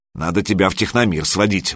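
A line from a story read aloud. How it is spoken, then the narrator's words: Grumbled. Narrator (Russian): буркнула Алена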